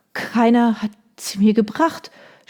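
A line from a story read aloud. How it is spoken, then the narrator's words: Stammering. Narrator (German): stammelte sie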